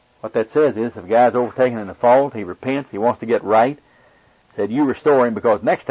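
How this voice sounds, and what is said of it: Oklahoma accent. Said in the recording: “my Oklahoma accent has not been too difficult for you to understand”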